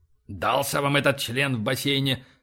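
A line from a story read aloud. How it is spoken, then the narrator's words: Muttered. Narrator (Russian): пробормотал Боровский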